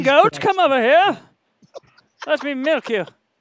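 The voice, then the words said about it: Comic movie character voice. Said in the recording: “you sound like an extra from what's that? ... Where the guy's up on the top of the castle ... Monty Python”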